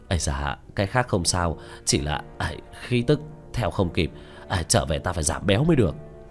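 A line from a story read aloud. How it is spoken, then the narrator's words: Breathless, panting. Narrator (Vietnamese): Tứ Bảo miệng đã thở hổn hển nói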